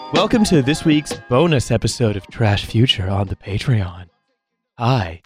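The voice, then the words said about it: Put-on sultry sexy voice. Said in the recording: “It's the nighttime podcast. No, hi. It's your normal Trash Future Patreon episode. I'm going to probably stop doing the sexy voice.”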